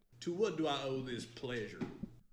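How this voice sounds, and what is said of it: Fake Southern accent. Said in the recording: “Nice accent, bud. ... with a fake Southern accent”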